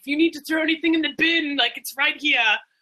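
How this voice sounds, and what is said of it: Terrible put-on Australian accent. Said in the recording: “That's my terrible Australian accent.”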